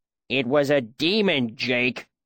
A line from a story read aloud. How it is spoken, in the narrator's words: Cobb said angrily